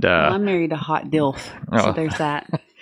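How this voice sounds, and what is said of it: Southern American accent. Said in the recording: “is a very beautiful Southern belle. ... You can tell by her accent.”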